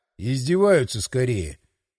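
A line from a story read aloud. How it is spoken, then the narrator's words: Muttering. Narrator (Russian): Пробурчал я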